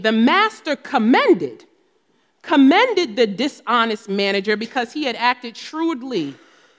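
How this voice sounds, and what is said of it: New Jersey accent. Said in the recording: “That's my Jersey accent.”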